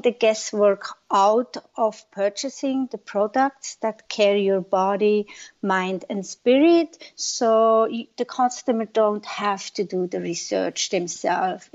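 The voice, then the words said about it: Foreign accent in English. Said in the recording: “I'm just going to go by your accent and say that you are not a Native American.”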